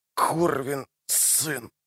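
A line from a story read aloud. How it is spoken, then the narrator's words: Moan. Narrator (Russian): простонал он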